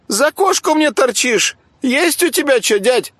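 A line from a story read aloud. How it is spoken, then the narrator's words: Squeaky voice. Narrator (Russian): пропищал инвалид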